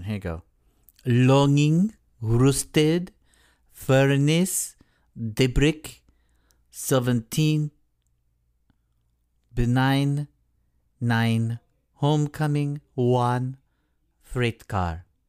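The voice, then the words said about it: Put-on French accent. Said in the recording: “read these in a French accent ... I can do a perfect French accent.”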